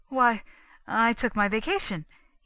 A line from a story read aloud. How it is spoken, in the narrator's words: stammered